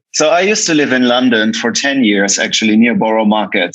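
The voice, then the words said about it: German accent. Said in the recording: “I'm German, obviously, as you can tell by the accent.”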